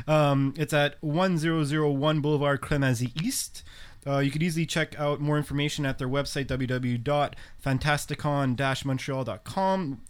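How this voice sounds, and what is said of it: Noticeable accent in English. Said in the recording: “Sorry if I brutalized that with my accent.”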